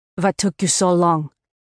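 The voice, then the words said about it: Raspy voice, thick Russian accent. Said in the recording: “in her distinctive voice. It was raspy with a thick Russian accent, so she ended up sounding like the Moscow version of Kathleen Turner”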